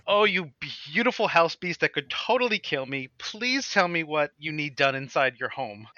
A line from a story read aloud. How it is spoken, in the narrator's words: And I exclaim